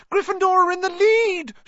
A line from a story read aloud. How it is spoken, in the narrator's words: shrieked Hermione